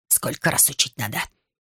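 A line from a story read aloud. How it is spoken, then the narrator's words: Angry scolding. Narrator (Russian): сердито выговаривал кому-то Абултинш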